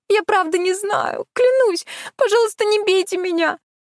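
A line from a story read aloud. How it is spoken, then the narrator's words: Whimpering plea. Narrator (Russian): Она захныкала, прикрываясь руками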